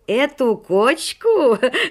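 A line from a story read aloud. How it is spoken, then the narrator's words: Bursting into laughter. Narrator (Russian): расхохотался Шелоник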